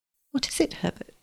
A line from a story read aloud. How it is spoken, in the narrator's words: asked anxiously